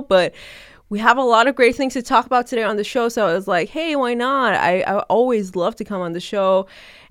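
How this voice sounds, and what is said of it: Nasal, congested sick voice. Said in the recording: “I'm kind of sick, so please do excuse my weird voice right now. It's just really nasally ... I do sound a bit weird today. My voice sounds a bit weird”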